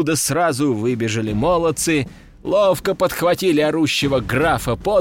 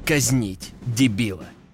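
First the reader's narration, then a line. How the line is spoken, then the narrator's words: Emperor's growl. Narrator (Russian): рыкнул император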